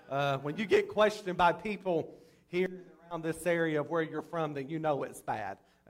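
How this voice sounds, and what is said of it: Strong Southern US drawl. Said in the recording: “I've got a real bad southern drawl, and I'm sure sometimes it's hard for people to understand me”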